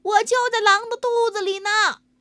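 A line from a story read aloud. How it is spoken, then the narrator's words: Shouting. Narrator (Chinese): 他喊道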